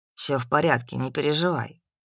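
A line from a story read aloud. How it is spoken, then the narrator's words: Even male voice. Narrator (Russian): ровным голосом ответил мужчина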